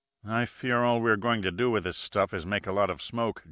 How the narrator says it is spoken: murmured

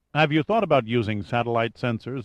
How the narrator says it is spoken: asked Gunn

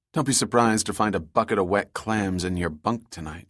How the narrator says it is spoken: she said

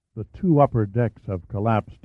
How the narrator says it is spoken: murmured as if conversing in a church

